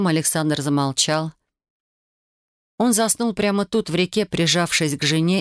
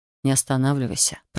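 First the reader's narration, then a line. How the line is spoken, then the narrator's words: Mumble. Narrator (Russian): пробормотал он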